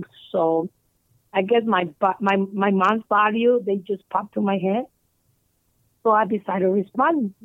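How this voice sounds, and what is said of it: Non-native English accent. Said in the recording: “sorry for my accent... I'm not very good at English”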